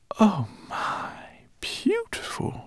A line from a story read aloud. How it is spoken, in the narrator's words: she whispered